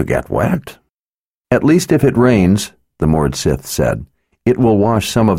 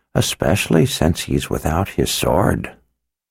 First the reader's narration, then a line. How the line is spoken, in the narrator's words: Zed muttered sourly